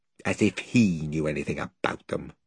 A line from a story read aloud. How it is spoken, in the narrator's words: muttered Edmund